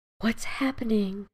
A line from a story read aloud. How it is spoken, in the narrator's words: breathed, instinctively shy of speaking aloud in that charged atmosphere